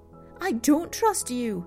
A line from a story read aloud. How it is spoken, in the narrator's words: Penny blurted out